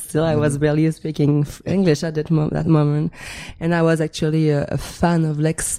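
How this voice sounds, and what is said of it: French-Canadian accent. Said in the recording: “I'm French-Canadian. ... Yes, you can tell. ... big accent still”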